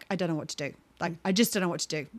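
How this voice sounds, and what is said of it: Imitates another person's voice. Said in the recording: “a good impression ... It was a lot of shoulders, faces, and noises.”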